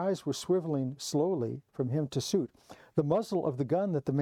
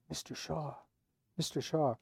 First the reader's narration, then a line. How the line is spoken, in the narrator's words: Hannah whispered